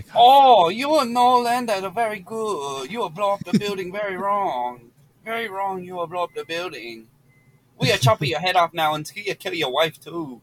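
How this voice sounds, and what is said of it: Put-on Asian accent. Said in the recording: “You in this damn Asian accent.”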